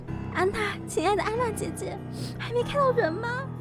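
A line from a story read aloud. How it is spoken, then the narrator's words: Wife crying, asking. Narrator (Chinese): 妻子哭着问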